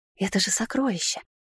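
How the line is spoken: Gollum-like whisper. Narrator (Russian): шептала она, как голум из одного известного фильма

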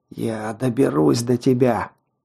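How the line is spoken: Exhausted rasp. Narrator (Russian): прохрипел я из последних сил

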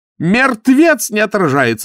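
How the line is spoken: Screamed. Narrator (Russian): закричала она

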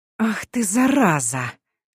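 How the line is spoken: Whisper. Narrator (Russian): прошептала я

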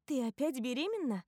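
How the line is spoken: Joyful question. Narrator (Russian): радостно спрашиваю

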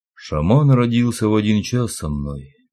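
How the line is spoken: Flat colorless voice. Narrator (Russian): бесцветным голосом произнес Валька

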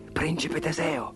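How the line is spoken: Whispered. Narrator (Italian): sussurrò

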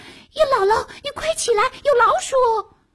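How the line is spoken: Shouting. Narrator (Chinese): 笤帚疙瘩 喊

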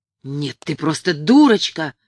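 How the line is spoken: Hiss. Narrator (Russian): прошипела Хильда

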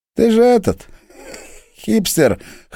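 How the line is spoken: Contemptuous snort. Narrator (Russian): хмыкнул Борька с явным презрением

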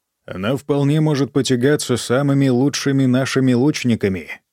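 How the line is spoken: Plain. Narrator (Russian): сказал я

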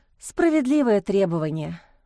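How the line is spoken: Sigh. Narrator (Russian): вздохнула Лиза

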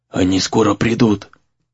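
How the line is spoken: Whisper. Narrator (Russian): прошептал он

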